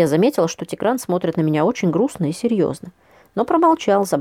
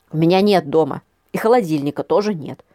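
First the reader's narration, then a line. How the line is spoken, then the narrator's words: Barked. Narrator (Russian): рявкнула я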